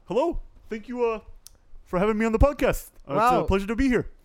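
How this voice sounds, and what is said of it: Bernie Sanders impression. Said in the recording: “Bernie Sanders just walked in the room.”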